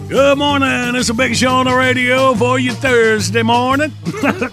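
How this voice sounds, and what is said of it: Put-on Finnish accent. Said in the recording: “Slid back in my Finland accent.”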